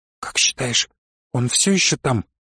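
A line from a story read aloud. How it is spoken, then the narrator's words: Whispered question. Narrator (Russian): прошептала она вопрос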